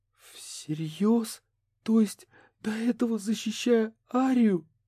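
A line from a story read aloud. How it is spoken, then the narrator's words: Sobbing. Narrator (Russian): Катрин всхлипнула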